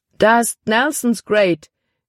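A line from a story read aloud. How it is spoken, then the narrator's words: Exclaiming. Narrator (German): rief er aus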